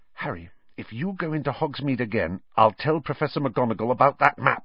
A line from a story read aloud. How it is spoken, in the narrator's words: said Hermione